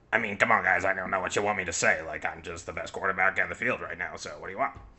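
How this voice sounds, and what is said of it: Imitates another person's voice, poorly. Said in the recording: “That was a horrible impression. ... That doesn't sound like Patrick Mahomes at all. ... Those were both awful by us.”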